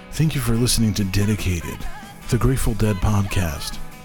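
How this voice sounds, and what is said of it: Smooth podcast announcer voice. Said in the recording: “That Grateful Dead voice, that podcast voice is pretty good.”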